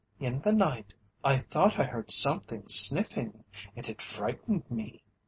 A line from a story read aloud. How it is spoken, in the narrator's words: who said timidly